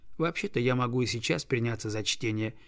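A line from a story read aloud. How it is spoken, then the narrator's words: Mumbling. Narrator (Russian): пробормотал он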